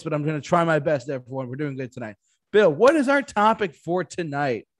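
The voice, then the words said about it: Sick-sounding voice. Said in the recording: “I am a little sick, so forgive my voice”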